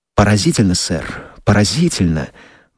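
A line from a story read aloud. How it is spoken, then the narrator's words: Muttering king. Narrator (Russian): бормотал король Скукумбенча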